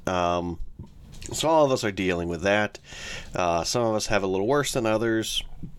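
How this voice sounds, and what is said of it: Slightly congested, cold-affected voice. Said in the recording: “I don't know if you can hear it in my voice, but I have a slight mucusy, coldish kind of situation.”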